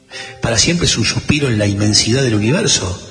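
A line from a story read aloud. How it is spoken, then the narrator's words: Plain. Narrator (Spanish): respondió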